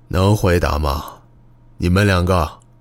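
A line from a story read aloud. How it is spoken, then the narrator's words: Quiet question. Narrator (Chinese): 野朵巴云再一次低声问道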